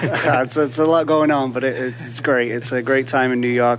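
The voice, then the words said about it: Speaks with a noticeable accent. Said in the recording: “I can detect from your accent”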